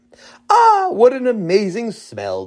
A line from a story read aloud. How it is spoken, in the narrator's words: the Rebbitzin exclaimed